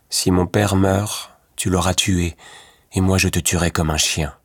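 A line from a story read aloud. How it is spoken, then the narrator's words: Dark, grim voice. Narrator (French): dit Louis Cornbutte d'une voix sombre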